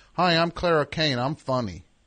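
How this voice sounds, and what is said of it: Imitates another person's voice. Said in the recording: “let's do an impression of Clara”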